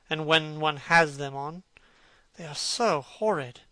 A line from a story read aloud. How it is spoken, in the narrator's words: muttered Hallward